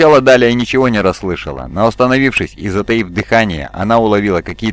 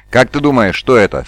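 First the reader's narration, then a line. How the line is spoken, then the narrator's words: Plain. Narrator (Russian): спросил Какстон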